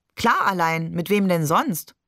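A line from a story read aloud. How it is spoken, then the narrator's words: Laughing question. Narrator (German): fragte Barbe und lachte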